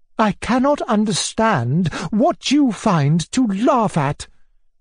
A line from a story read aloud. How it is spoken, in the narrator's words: she cried